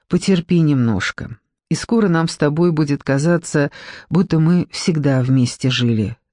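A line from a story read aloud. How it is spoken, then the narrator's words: Plain. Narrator (Russian): сказал Руслан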